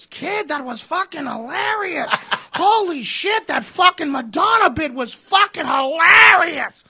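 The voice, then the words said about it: Heavy Boston accent impression. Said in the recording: “That heavy Boston accent”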